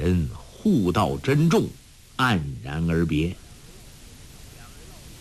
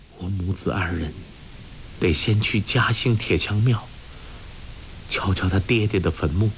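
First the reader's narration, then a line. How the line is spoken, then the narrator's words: Soft voice. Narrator (Chinese): 轻声说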